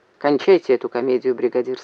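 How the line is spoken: Plain. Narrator (Russian): сказал он

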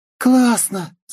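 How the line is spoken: Yelled. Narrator (Russian): завопила Полина

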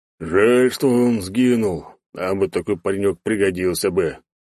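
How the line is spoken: Deep bass, bear. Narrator (Russian): басом выгорел косолапый

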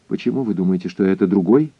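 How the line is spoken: Quick question. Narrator (Russian): быстро спросил я

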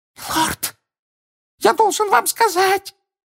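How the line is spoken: Panicked exclamation. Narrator (Russian): панически воскликнул хвост

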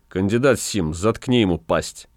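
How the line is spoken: Flat even voice. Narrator (Russian): Ротмистр Чачу сказал ровным голосом

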